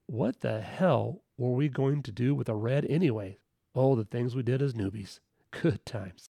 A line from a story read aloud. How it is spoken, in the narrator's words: We all laugh and say